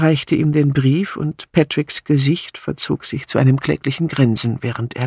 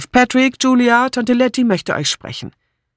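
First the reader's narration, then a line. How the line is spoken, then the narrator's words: Called out. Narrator (German): rief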